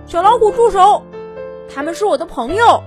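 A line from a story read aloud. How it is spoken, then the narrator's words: Shouting. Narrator (Chinese): 丹尼尔大叫着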